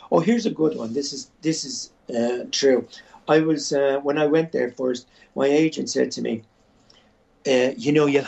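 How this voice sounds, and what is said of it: Irish accent. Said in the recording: “Just hearing you talk, the whole world loves the Irish accent”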